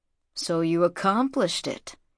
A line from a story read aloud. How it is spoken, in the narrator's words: he murmured